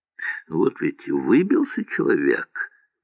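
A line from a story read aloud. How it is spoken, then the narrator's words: Mumbling. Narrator (Russian): мямлил про Дулова Михаил Михайлович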